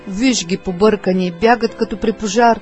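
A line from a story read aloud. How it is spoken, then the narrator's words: Angry exclamation. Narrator (Bulgarian): Не един път сърдито възкликваше той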